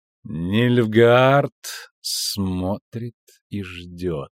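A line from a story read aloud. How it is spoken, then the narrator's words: Slow drawl. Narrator (Russian): медленно тянула Мэва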